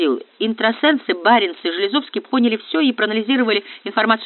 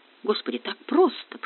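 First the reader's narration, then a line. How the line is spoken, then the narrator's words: Whisper. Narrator (Russian): прошептал Баянова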